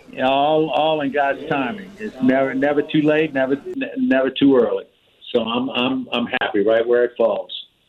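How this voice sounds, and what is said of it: New Orleans accent. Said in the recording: “He ain't lost that accent from ... New Orleans. You could tell exactly that.”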